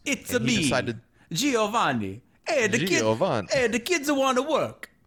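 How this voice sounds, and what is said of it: Put-on Italian accent. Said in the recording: “Italian accent ... your first few words were kind of Italian”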